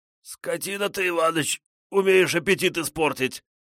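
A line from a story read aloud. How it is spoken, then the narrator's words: Hoarse wheeze. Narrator (Russian): прохрипел Петрович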